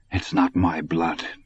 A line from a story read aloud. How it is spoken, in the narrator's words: Dusander muttered